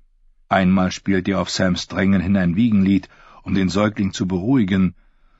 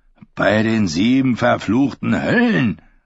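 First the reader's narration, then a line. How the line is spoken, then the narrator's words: Hissing angrily. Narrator (German): fauchte Darion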